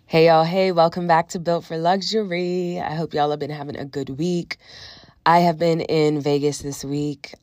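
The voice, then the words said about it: Congested voice from a cold. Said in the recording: “as you can tell by my voice, have a bit of a cold, feeling a lot better. But I still sound like this”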